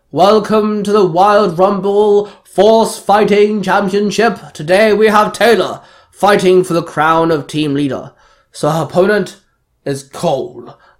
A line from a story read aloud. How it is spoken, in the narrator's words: Nazor called out